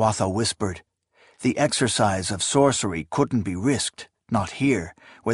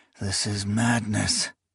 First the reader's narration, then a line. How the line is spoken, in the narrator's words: he murmured